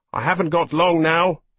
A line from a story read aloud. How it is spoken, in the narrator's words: his brother had said over the noise of roaring aero engines